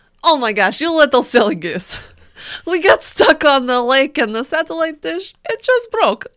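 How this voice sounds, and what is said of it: Put-on Russian accent. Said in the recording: “How do I do a Russian accent?”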